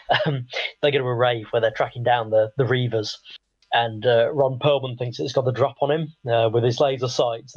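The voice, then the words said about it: Croaky voice. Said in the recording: “croaky my voice is”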